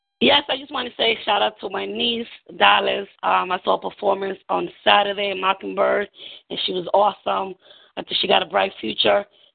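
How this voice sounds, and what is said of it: New York accent. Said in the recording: “I can hear that New York accent”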